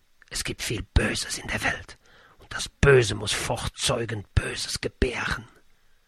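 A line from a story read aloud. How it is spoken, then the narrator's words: Old man whispering. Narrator (German): Der Greis flüsterte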